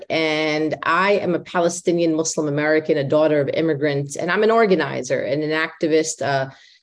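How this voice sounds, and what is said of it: Heavy New York accent. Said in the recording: “my nice heavy accent from New York”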